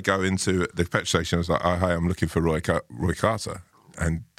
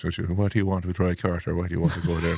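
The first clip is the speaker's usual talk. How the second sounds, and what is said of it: Sing-song Mayo Irish accent. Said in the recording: “this accent... in Mio, they have this kind of sort of singing way of talking... I can't do it greatly... that sounded like a legit accent”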